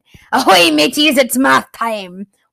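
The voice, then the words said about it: Pirate voice. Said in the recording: “sounds like a pirate”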